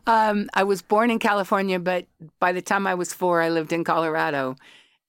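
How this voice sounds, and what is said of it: American accent. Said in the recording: “that accent ... I sound ... Like a Yank. I'll always sound like a Yank. ... I still sound like a Yank.”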